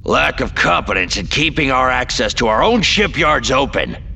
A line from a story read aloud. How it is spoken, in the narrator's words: Koyan roared